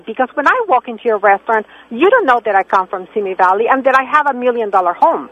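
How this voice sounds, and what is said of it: German accent. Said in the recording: “when you open your mouth, I hear the German accent”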